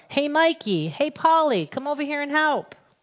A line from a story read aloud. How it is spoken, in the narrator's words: he called out